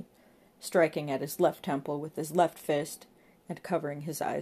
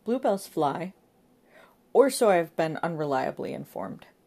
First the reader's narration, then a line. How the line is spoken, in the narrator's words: Giggles, the monkey boy